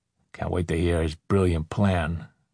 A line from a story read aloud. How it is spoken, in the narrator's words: Pinto muttered